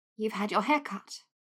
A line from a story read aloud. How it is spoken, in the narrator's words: she said quietly